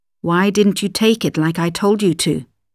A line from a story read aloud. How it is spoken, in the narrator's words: he asked her sharply